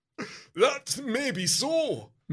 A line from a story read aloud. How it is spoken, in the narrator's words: MacDonald laughs